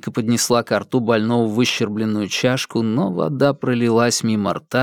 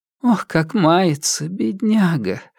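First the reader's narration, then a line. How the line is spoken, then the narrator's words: Sighing. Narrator (Russian): вздохнула она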